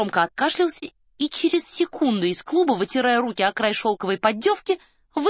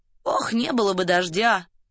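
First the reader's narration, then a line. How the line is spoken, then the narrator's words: Muttered. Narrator (Russian): пробормотал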